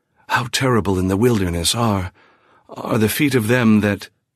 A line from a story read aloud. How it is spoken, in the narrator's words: He would ... whisper